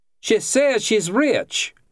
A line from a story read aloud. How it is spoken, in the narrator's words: Jan yelled